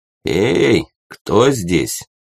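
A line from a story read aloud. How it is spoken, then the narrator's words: Rough, hoarse smoker's voice. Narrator (Russian): спросил грубый, хриплый, прокуренный голос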